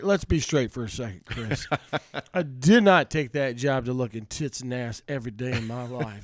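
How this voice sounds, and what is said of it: Louisiana accent. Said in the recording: “You still have your Louisiana accent.”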